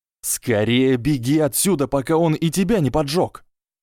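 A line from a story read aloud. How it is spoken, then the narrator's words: Inner voices yelling. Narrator (Russian): завопили внутренние слизеринец, гриффиндорец и пуффендуец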